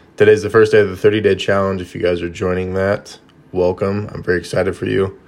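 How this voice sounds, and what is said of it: Hoarse, croaky early-morning voice. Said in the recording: “It is very, very early ... excuse me if I sound like I have a frog in my throat.”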